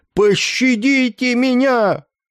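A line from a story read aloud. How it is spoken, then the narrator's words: Piercing scream. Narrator (Russian): его пронзительный вскрик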